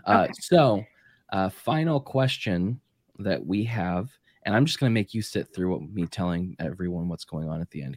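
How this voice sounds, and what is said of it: Hoarse, worsening voice. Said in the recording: “my voice is just getting worse.”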